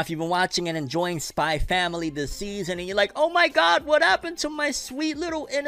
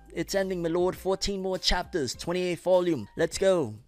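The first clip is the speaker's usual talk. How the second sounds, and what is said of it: Put-on accent. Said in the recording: “Don't know why I put on this accent, my lord. You probably hate it.”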